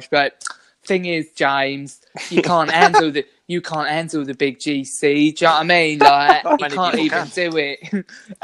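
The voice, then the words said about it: Imitates another person's voice. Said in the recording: “I used to do a good impression of her. I'm doing it for a while.”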